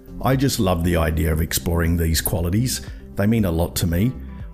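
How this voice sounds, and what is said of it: Australian accent. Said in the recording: “the other Australian accent you occasionally hear on the show”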